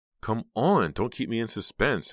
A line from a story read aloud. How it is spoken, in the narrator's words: Heather pleaded